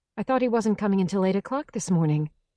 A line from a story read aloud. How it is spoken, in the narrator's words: she said quickly